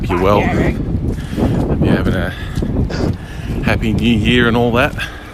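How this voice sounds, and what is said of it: Slightly out of breath. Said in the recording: “I'm a little out of breath. I just started running.”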